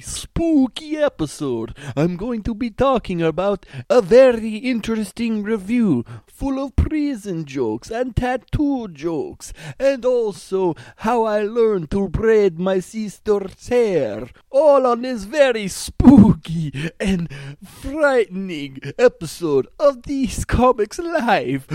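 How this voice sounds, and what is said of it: Put-on accent. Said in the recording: “I won't be using this accent the whole time.”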